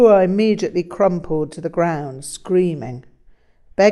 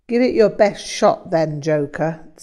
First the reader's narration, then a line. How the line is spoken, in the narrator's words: Tsarpur laughed